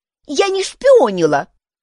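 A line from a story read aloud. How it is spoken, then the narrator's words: Snapped. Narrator (Russian): огрызнулась Юнис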